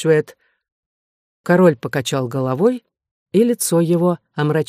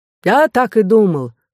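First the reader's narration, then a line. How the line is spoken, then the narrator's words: Exclaiming priest. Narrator (Russian): воскликнул духовник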